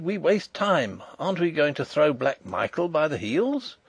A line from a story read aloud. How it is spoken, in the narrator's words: he cried